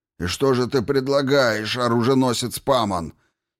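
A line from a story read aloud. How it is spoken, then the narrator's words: Angry demand. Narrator (Russian): сердито потребовал ответа Хакатри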